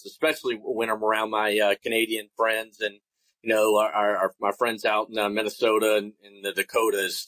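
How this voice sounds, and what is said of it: Southern US twang accent. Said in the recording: “a guy from South Carolina with a South Carolina accent ... the twang”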